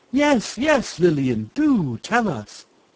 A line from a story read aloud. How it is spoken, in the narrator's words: Waldo Lizard, Edna Elephant, and Lawrence Walrus, seeing that there was no way out, cried